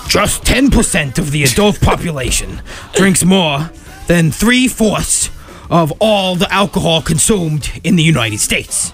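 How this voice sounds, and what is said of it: Bad Bernie Sanders impression. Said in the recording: “bad impression of Bernie Sanders”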